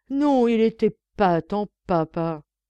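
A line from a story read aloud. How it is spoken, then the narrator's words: Exclaimed. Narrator (French): s'écria-t-il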